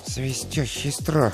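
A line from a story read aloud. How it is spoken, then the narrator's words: Muttering. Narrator (Russian): пробормотал он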